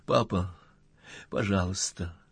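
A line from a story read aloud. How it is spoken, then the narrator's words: Quiet helpless crying. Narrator (Russian): Лиза вдруг тихо и беспомощно заплакала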